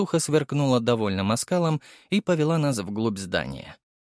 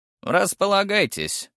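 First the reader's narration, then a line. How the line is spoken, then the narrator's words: Stout woman snorting. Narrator (Russian): хмыкнула толстуха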